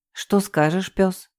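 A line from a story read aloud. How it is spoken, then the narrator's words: Sigh. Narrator (Russian): вздохнула я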